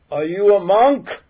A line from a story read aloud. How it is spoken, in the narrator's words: She yelled